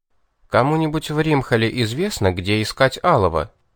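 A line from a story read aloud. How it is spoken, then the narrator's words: Quiet question. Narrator (Russian): тихо спросил я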